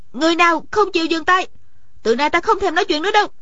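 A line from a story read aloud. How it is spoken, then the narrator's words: Sudden raised voice. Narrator (Vietnamese): Điền Thanh Văn bỗng cao giọng nói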